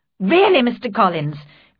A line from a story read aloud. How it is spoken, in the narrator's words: cried Elizabeth with some warmth